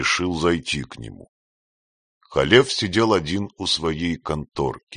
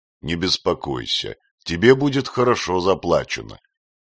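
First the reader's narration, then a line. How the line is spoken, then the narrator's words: Completely calm. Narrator (Russian): сказал Халев совершенно спокойно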